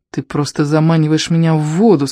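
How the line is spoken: Plain. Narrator (Russian): сказал

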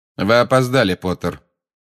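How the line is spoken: Cold. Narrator (Russian): холодно сказал снег

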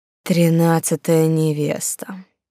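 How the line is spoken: Weak groan. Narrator (Russian): простонал уже немного очухавшийся пан Турш

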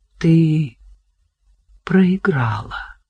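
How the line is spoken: Quiet. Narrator (Russian): тихо сказал он

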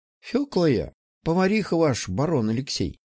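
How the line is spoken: Tired. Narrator (Russian): устало сказала она

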